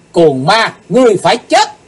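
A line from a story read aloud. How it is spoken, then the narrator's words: Shouting. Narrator (Vietnamese): Cùng trong tiếng hét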